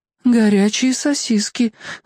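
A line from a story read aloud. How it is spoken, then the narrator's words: Mother, dejected voice. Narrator (Russian): упавшим голосом произнесла мама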